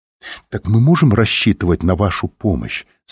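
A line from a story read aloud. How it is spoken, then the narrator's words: Plain. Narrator (Russian): спросила Софи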